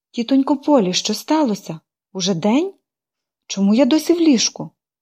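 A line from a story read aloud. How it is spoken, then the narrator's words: Exclamation. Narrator (Ukrainian): вигукнула вона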